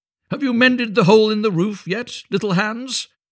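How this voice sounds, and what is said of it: Cheery, loud character voice. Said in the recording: “cried the miller in a cheery voice”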